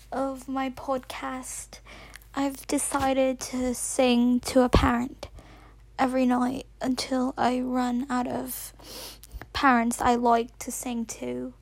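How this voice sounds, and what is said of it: Put-on British accent. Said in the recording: “talking in a British accent? ... I've decided to speak in a British accent because he's never heard my real voice”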